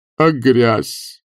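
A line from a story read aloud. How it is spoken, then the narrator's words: Gloomy question. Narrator (Russian): мрачно спросил мэтр д'отель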